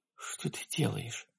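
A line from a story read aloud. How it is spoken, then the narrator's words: Female whisper. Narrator (Russian): прошептала она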